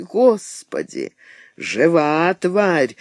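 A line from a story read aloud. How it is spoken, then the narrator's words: Spiteful gleeful whisper. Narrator (Russian): со злобной радостью прошептал он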